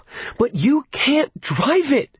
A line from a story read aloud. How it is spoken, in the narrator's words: she wailed